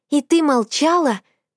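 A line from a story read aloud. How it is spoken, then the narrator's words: Yell. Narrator (Russian): завопила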